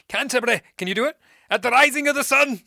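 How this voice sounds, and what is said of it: Angry, fearsome put-on Welsh accent. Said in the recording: “now he's angry Scottish ... that's fearsome ... that wasn't my Scottish accent ... Welsh”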